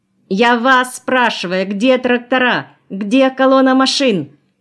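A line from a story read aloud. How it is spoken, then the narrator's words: Ringing young tenor yelling. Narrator (Russian): орал звонкий молодой тенорок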